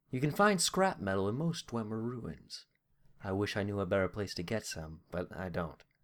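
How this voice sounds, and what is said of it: Put-on character accent. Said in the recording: “I keep breaking my accent whenever I keep trying to say the word snatch at the end”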